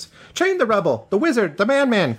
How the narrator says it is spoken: cried the three favorites

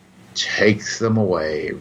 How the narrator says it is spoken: Reeve Marcon sighed to his assistant

